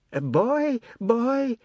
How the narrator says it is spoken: the midwife cried

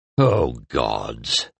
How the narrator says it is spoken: groaned Chadro

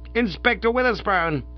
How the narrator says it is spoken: cried

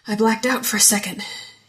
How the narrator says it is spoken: gasped

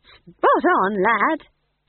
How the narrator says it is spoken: said Nanny cheerfully

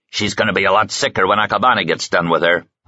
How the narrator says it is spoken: Hans snarled

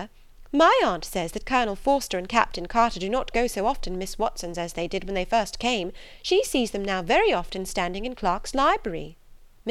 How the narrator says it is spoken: cried Lydia

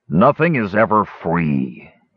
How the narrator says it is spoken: he growled softly

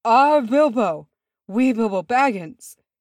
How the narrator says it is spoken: breathed, his face white as chalk

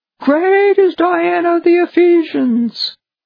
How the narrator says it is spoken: for about 2 hours, this silly Gentile crowd just shouted

